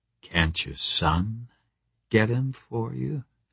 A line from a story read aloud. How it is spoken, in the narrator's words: I said quietly